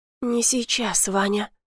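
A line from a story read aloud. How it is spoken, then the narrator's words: Forceful, confident whisper. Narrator (Russian): шепнула, и в ее голосе была такая сила, такая уверенность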